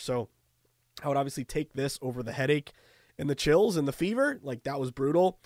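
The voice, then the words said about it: Hoarse, nearly lost voice. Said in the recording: “I've totally lost my voice. You can hear it from me right now. I apologize. It probably sounds terrible.”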